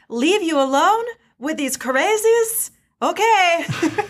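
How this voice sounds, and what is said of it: Attempted Hondo Ohnaka accent. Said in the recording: “I don't know what accent that was. I was trying. ... It was close.”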